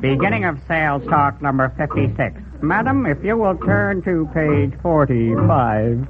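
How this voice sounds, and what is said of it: Rough mechanical salesman voice. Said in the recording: “I'm a mechanical salesman. My voice is a little rough today. I have a frog in my loudspeaker.”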